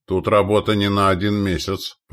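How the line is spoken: Grumbled. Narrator (Russian): проворчал вождь Погудов

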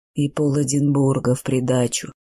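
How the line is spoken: Gloomy. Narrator (Russian): мрачно добавил Нейл

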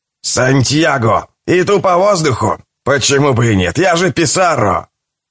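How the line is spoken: Shouting with all might. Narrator (Russian): Он крикнул, что есть мочи

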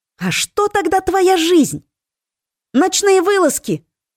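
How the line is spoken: Exclaiming. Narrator (Russian): воскликнула Милена

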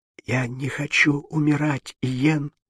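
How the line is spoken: Whispered. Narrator (Russian): прошептала Мария

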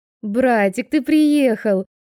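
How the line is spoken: Joyful squeal. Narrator (Russian): Они с радостным визгом

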